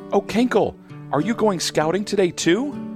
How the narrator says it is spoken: Hannah Bee buzzes excitedly

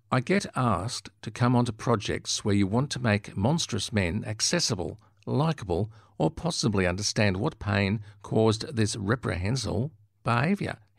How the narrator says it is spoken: he says

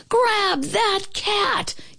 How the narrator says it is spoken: yelled the man

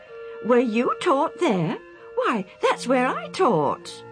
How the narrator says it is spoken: The older man exclaimed

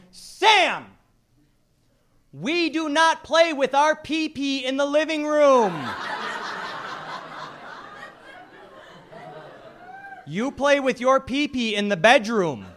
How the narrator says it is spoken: She yelled

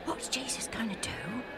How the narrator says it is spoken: Alf whispered to Joe

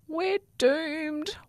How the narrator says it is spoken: wailed a plastic bag

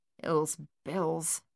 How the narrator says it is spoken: Thaddeus mumbled

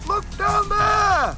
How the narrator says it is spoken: cried Ember Bunny

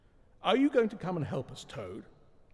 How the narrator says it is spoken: the rat demanded sternly

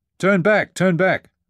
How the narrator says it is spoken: hollered Dana

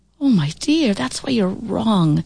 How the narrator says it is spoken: she said wistfully

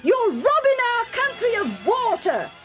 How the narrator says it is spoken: they yelled

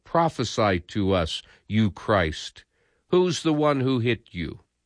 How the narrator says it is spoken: others said

